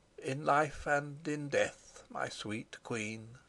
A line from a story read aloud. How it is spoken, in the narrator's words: he murmured